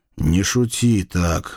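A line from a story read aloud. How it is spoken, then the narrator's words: Fearful groan. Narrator (Russian): простонал я, боясь, что он может быть очень недалек от истины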